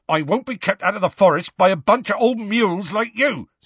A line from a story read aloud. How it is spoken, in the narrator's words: said Hagrid loudly